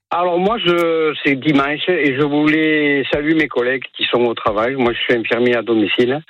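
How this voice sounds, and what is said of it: Southern French accent. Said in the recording (French): “À vous entendre, on l'aurait deviné, parce que c'est un accent du Sud que vous avez”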